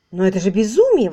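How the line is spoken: Exclaiming. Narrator (Russian): воскликнул Дейл

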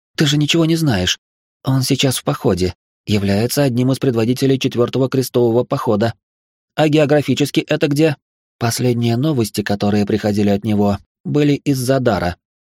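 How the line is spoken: Agitated. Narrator (Russian): взволнованно произнесла

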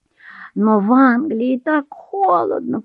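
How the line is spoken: Moaning. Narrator (Russian): простонала Дебора

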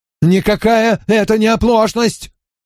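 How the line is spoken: Shrill shout. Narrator (Russian): пронзительно выкрикнул Ллойд

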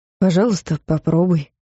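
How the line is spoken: Gentle. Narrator (Russian): мягко сказал Клайв

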